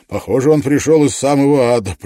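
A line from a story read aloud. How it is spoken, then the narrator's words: Grumble. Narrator (Russian): проворчал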